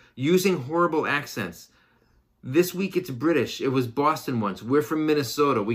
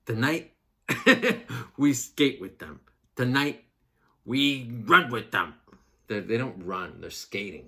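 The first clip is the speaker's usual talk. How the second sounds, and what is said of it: Minnesota accent, Kurt Russell impression. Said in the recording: “That's a flawless Minnesota accent and a flawless impression of Kurt Russell in the movie Miracle.”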